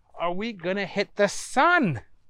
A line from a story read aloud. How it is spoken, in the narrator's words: Booger was yelling